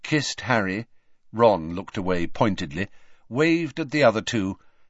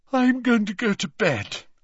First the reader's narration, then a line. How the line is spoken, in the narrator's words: yawned Ginny